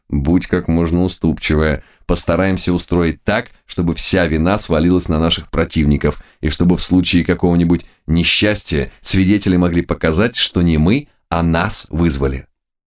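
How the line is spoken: Hurried whisper. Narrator (Russian): Самуил едва имел время шепнуть Юлиусу

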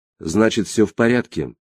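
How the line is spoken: Even, level voice. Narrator (Russian): ровным голосом сказала Ада

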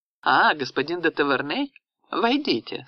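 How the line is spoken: Forced cheerful tone. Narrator (Russian): сказала она искусственно веселым тоном

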